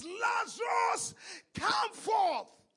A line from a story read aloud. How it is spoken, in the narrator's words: Jesus shouts with a loud voice, and he says